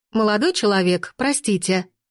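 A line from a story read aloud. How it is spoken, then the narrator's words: Familiar female voice, from gate. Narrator (Russian): раздалось от калитки женским голосом с очень знакомыми нотками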